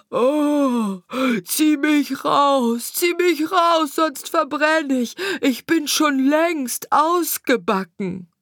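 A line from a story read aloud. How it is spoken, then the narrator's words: Bread screaming. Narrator (German): schrie das Brot wieder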